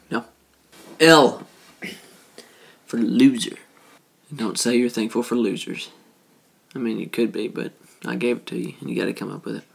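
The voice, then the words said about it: Speaks with a heavy accent. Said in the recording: “I'm talking with a really heavy accent tonight”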